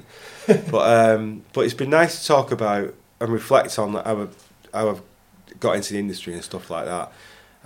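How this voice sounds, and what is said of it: Bolton English accent. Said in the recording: “Big daft stupid Bolton accent.”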